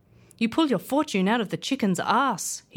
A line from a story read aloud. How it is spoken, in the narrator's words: he cried